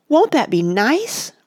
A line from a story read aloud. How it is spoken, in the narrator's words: pleaded Oliver, in such a desperate voice